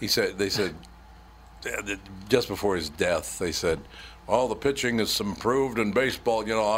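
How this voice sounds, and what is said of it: Usual voice. Nothing is said of it.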